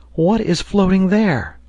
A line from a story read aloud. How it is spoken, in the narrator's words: the lad came running back exclaimed